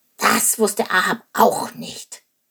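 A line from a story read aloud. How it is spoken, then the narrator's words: Croaking raven. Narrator (German): krächzte der Rabe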